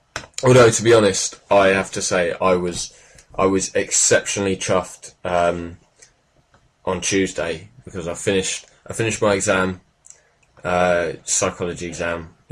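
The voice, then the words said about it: Laddish British put-on accent. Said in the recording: “talking with an accent now that we're recording ... talking slightly differently than you usually do ... talking a bit more laddish ... just trying to sound cool”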